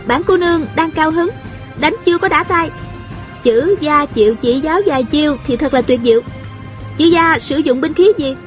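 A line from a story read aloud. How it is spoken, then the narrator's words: Smiling. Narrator (Vietnamese): A Cửu mỉm cười nói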